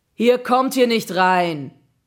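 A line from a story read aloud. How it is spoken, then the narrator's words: Booming deep bass voice. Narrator (German): donnerte eine gewaltige Bassstimme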